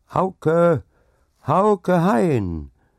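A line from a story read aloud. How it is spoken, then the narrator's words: Loud cheerful call. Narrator (German): rief es laut und fröhlich in die kalte Nacht hinaus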